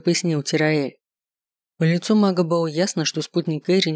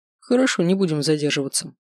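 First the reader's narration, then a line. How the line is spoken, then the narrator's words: Plain. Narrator (Russian): сказал он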